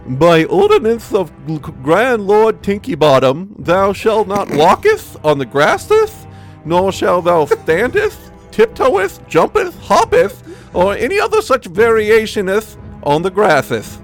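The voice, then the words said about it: Put-on accent reading aloud. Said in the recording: “It's amazing being able to read an accent.”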